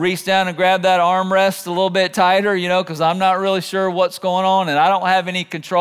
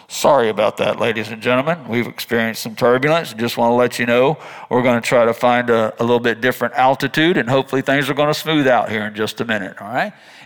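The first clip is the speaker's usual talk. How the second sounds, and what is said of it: Airline pilot announcement voice. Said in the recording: “my best pilot impression”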